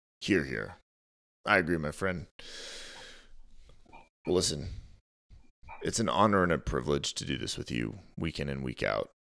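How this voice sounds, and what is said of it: Tired voice starting to break. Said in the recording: “my voice is uh, for whatever reason, have been it's been a long day of talking, and it's starting to break”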